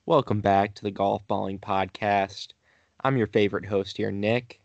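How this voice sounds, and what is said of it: Flat, low-energy monotone delivery. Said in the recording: “the most boring introduction you could have given. Just no energy, so monotone.”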